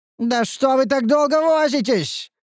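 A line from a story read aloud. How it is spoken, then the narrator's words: Hysterical shout. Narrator (Russian): истерично прокричал вожак противника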